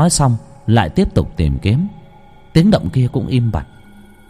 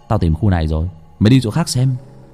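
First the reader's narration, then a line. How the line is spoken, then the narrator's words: Soft voice. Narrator (Vietnamese): Trung, chỉ khẽ nói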